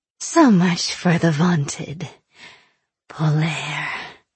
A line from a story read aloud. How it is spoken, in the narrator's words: Aina wheezed, still drunk on power